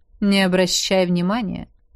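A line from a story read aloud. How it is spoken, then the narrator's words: Calm, while eating. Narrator (Russian): сказал Хан, спокойно поглощая пищу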